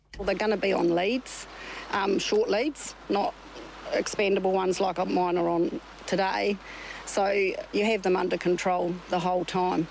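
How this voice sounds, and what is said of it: New Zealand accent. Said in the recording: “New Zealand accent of the week”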